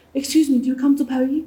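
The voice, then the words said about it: Terrible put-on accent. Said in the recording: “Terrible accent”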